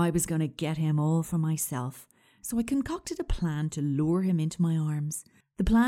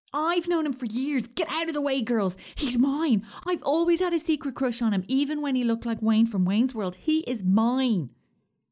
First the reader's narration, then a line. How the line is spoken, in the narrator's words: shouting